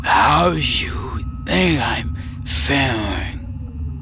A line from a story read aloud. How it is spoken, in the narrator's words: Mara croaked